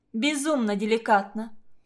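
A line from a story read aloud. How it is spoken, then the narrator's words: Girl's grumble. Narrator (Russian): проворчала одна из девушек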